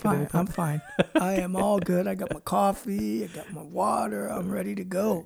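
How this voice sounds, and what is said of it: Scratchy, hoarse voice. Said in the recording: “my scratchy voice ... You do have a little bit of laryngitis”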